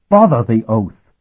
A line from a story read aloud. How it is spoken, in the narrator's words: she snapped